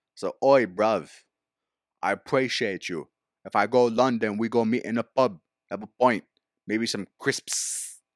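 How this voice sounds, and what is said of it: Poor put-on London accent. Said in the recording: “My accent sucks.”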